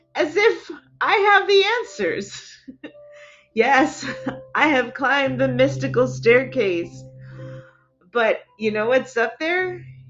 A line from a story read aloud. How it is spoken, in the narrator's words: chuckled